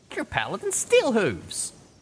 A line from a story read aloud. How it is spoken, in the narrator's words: he exclaimed